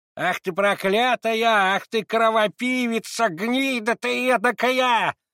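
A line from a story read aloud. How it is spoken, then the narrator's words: Shrieking breathless torrent of curses. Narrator (Russian): визжала баба, залпом выпуская из себя все накопившиеся ругательства, большую частью без запятых и без точек, но с каким-то захлебыванием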